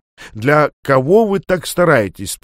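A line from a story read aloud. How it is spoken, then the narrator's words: Cheerful question. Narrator (Russian): спросил он весело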